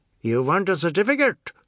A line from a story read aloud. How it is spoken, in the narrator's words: The negro's lips snapped ferociously shut between words